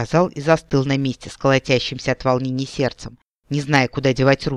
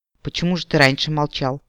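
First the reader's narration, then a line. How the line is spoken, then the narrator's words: Calm, somewhat dry question. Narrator (Russian): спокойно и отчасти суховато спросила Нолвенде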